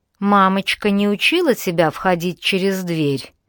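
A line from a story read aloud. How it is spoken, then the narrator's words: Purring near ear. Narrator (Russian): Промурлыкал голос над ухом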